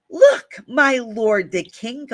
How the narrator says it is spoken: Gehazi exclaimed

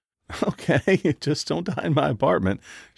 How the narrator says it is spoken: giggled

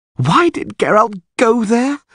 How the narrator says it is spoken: groaned Dandelion

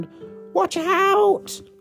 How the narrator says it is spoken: A penguin shrieks

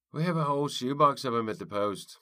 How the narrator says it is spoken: Lunt yelled to him above the din

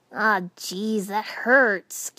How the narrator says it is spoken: Kiba groaned

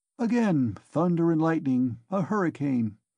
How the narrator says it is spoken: said Nikodim Fomitch to Ilya Petrovitch in a civil and friendly tone

